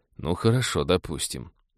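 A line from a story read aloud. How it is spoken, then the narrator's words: Tired. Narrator (Russian): наконец устало сказал Станислав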